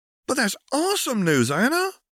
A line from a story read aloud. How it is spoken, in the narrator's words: Tallulah squeaked